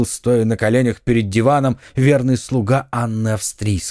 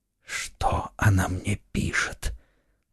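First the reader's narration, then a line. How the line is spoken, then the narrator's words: Weak, wounded question. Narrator (Russian): слабым голосом спросил Бекингем, истекая кровью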